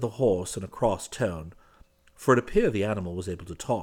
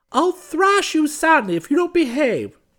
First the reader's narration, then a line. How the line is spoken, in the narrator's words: screamed the kinglet